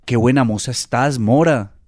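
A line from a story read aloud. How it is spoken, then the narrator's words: Firefly exclaiming. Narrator (Spanish): exclamó el cocuyo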